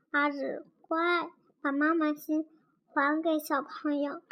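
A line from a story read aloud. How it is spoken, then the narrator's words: Very gentle. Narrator (Chinese): 老师都得更温柔的说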